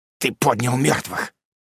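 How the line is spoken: Hoarse rasp. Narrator (Russian): прохрипел он

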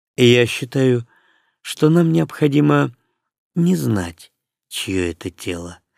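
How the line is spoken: Calm. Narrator (Russian): прибавил он спокойно

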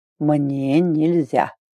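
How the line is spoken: Drawling. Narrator (Russian): опять протянул Арн

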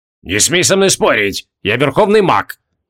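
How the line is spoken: Barking shout. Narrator (Russian): Рявкнул

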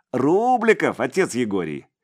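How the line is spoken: Pleased giggle. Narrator (Russian): Степаныч хихикнул от удовольствия

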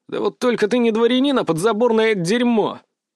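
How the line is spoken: Roaring with laughter. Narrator (Russian): Распутин расхохотался

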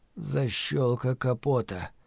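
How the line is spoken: Mutter. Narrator (Russian): пробормотал Стью

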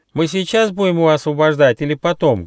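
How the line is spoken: Little hedgehog, loud question. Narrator (Russian): громко спросил ежонок Почемучка

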